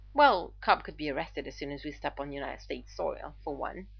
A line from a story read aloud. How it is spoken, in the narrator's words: Arthur replied dryly